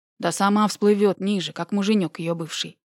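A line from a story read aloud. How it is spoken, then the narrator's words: Displeased grumbling. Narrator (Russian): недовольно ворчал другой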